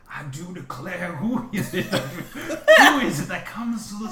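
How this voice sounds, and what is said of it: Deep character voice. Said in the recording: “there was this deep voice that comes out”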